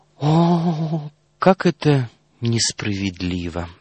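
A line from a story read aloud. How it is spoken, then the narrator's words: Princess sighing. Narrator (Russian): вздохнула принцесса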